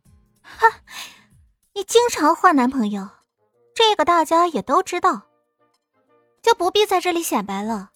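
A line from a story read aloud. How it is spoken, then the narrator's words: Cold sneer. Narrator (Chinese): 艾云真冷笑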